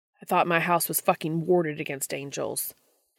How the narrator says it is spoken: Dean snaps

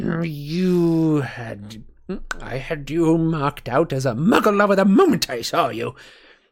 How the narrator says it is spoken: sneered Gaunt

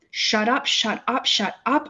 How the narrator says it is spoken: I begged

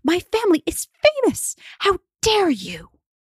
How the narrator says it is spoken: shrieks Inanna

